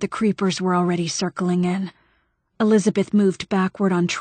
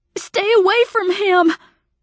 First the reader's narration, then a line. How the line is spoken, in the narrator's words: she shouted